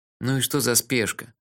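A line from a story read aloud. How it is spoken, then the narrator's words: Grumbling. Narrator (Russian): проворчал я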